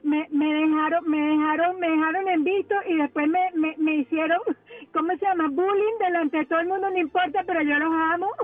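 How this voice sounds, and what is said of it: Venezuelan Spanish accent. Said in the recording (Spanish): “ese acento me trae recuerdos ... Yo soy de Venezuela.”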